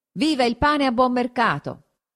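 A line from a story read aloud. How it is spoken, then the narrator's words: Shouted. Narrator (Italian): uno gridò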